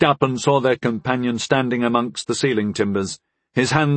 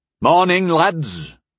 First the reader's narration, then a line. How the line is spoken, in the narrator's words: Pignot called out from the second floor